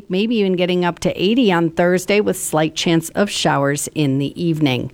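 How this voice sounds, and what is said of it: Chicago accent. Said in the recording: “Every time I say chance, I hear my Chicago accent.”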